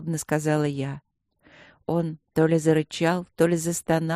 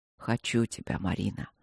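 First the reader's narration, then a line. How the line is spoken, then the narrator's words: Hoarse, insistent. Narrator (Russian): хрипло и настойчиво проговорил он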